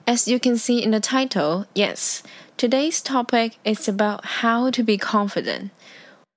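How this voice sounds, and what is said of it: Non-native English accent. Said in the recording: “trying to talk in English. Well, to be honest, I don't have a good accent”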